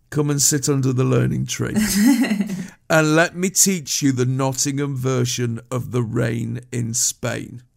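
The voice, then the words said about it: Slight Nottingham accent. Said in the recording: “I have a slight Nottingham accent”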